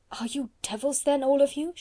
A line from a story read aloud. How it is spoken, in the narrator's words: she gasped